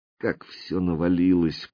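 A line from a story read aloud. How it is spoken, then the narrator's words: Muttering. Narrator (Russian): пробормотала она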